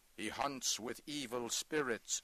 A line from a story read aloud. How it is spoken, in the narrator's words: said one